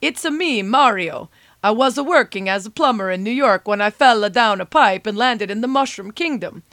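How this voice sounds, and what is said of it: Mario impression accent. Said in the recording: “Mario, the star of Super Mario Brothers ... pardon the accent.”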